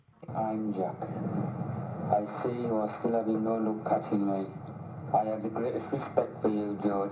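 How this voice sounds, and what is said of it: Sunderland accent. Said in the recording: “With an accent on. ... With an accent. Now, this accent is... ... Oh, it's a Sunderland accent. ... Fucking Northerners.”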